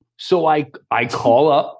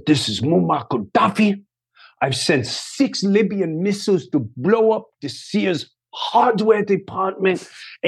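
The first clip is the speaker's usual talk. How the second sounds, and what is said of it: Put-on foreign accent. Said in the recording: “I'm doing the whole accent.”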